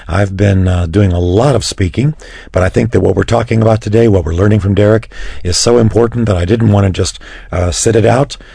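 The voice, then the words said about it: Slightly scratchy, hoarse voice. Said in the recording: “as you can tell, my voice is just a little on the scratchy side”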